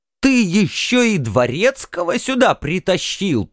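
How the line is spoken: Enraged hiss. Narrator (Russian): прошипел взбешенный Эмрах

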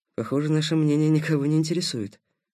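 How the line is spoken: Muttering. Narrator (Russian): пробормотал Никита

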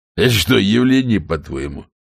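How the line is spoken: Snort. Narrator (Russian): хмыкнул Шедуэлл

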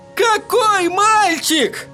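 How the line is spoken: Desperate wail. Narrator (Russian): отчаянно завопил Эдди

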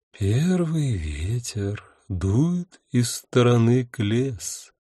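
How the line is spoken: Singsong voice. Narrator (Russian): нараспев говорил голос

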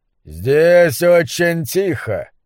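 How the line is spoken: Mocking. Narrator (Russian): насмешливо сказал доктор Кальмениус

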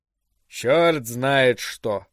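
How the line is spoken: Sigh. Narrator (Russian): вздохнул лейтенант Гудвин

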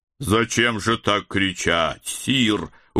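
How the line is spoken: Reproachful low boom. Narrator (Russian): укоризненно прогудел он

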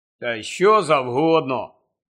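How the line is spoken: Gloomy grumble. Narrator (Ukrainian): похмуро буркнув Рон

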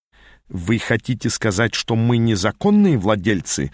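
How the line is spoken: Growling. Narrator (Russian): зарычал он

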